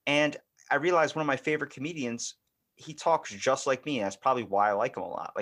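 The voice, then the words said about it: Baltimore accent. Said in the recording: “your Baltimore accent is just, it's so just ridiculous”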